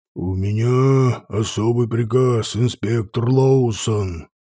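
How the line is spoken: Ogre growling. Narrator (Russian): рыкнул огр

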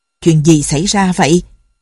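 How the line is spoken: Angry question. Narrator (Vietnamese): Buộc giận dữ hỏi

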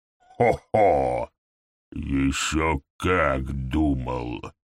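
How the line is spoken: Sepulchral reply. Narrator (Russian): За могильным голосом ответил ГМ

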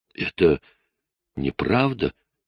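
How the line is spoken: Forced out, trembling voice. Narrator (Russian): наконец выдавила Клэр из себя дрожащим голосом

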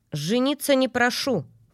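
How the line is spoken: Scoffing snort. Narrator (Russian): фыркнула я

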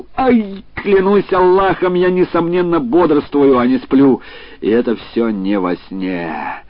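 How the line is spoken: Howling shout. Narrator (Russian): Абуль-Хасан взвыл и крикнул

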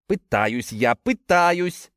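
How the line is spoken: Irritated dismissal. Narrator (Russian): раздраженно отмахнулся тот

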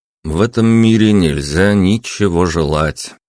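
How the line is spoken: Gloomy remark. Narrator (Russian): мрачно заметил я

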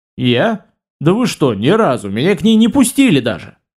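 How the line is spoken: Indignant answer. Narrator (Russian): возмущенно отвечаю я

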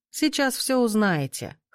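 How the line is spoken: Smirking grunt. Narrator (Russian): хмыкнул Лют

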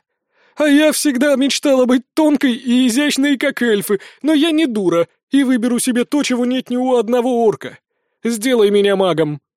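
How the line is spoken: Barely audible breathless rasp. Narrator (Russian): Наконец, отдышавшись, она еле прохрипела

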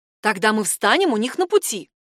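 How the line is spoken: Exclaiming. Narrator (Russian): воскликнула она

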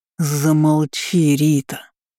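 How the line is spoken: Growl. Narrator (Russian): прорычал он

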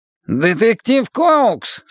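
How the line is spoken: Nasal Irish-accented question. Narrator (Russian): спросил Форд с гнусавым ирландским акцентом

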